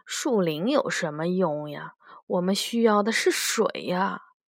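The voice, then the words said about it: Quiet muttering voice. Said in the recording (Chinese): “一个士兵小声的嘀咕”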